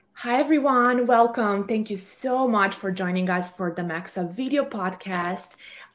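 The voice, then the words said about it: Rough, congested unwell voice. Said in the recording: “sorry for my voice. ... I'm getting over a cold”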